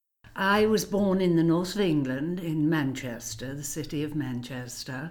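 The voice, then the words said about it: Non-American English accent. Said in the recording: “People can probably tell from your lovely accent that you're not from the U.S.”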